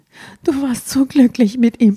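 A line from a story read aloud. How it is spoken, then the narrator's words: Sobbing. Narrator (German): schluchzte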